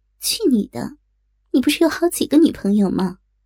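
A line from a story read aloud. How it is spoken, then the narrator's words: Smiling. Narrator (Chinese): 林少 微笑着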